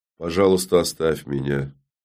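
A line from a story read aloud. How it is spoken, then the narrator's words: Quiet but firm. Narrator (Russian): Всеведа говорила по-прежнему, негромко, но твердо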